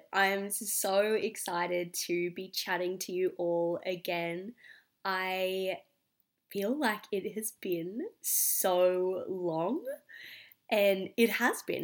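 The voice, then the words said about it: Sick-sounding voice. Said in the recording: “You can probably hear in my voice, I am a little bit sick at the moment”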